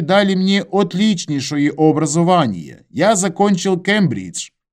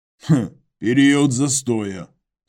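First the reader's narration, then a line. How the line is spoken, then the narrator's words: Skeptical grunt, clarifying. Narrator (Russian): хмыкнул и уточнил Иваныч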